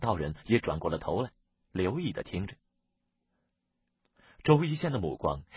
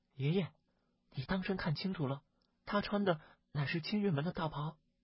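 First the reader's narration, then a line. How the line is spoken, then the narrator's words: Hushed low voice. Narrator (Chinese): 小环定了定神，压低了声音，轻声的对周一仙道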